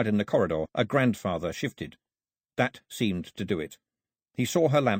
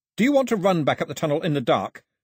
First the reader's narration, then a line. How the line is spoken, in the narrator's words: he shouted as loudly as he could